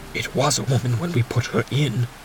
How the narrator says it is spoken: whispered Fetz

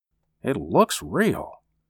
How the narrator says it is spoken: he murmured

